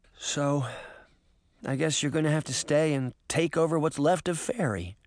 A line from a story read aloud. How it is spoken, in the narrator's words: Sabrina said softly